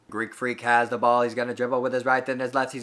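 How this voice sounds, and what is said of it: Old-fashioned 1950s sports broadcaster voice. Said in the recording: “What is that accent? Is that how you imagine the Milwaukee broadcaster sound? ... Like from the 50s or something.”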